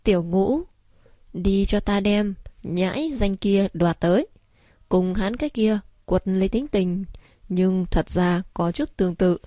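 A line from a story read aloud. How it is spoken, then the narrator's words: Laughing loudly. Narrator (Vietnamese): Ngô đại lão ngửa mặt lên trời cười to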